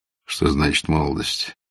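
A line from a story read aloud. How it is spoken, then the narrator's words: Calm speech. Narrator (Russian): произнес спокойно Базаров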